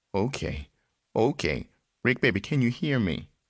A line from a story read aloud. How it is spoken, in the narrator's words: continuing to murmur gently